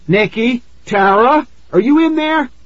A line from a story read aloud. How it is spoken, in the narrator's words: I shouted at the top of my lungs